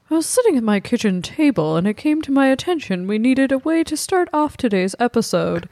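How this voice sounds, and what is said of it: Breathy NPR radio-host voice. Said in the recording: “an annoying NPR voice ... It's just very breathy.”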